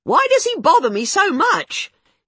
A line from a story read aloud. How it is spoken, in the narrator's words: she yelled